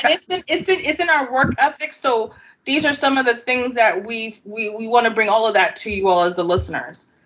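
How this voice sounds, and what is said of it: New York City accent. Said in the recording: “my very New York City accent”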